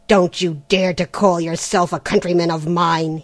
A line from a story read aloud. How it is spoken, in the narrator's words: he growled